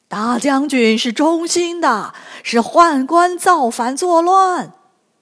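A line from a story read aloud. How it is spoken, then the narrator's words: Loud shout. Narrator (Chinese): 他大声呼喊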